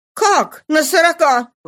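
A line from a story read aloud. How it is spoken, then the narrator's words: Astonished exclamation. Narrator (Russian): воскликнула она, пораженная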